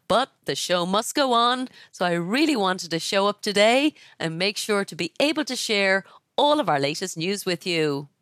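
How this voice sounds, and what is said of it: Congested, stuffy head-cold voice. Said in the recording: “You can probably hear in my voice, I have a terrible head cold. So my apologies for sounding less than perfect.”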